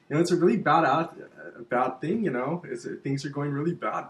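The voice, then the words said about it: Put-on immigrant-style accent. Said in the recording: “I'm talking like an immigrant.”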